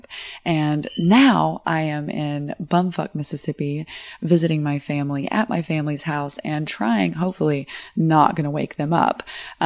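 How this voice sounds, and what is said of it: Whispering. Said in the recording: “I am kind of whispering right now”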